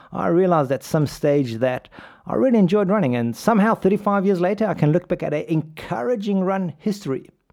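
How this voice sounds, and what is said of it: South African English accent. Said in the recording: “It's a German name. I grew up in South Africa. As you can tell from my accent”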